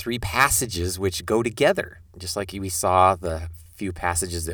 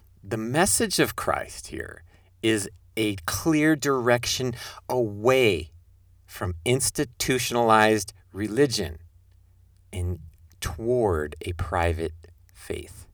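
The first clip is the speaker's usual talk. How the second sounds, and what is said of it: Slow, careful, deliberate speech. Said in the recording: “say that slowly, carefully, deliberately”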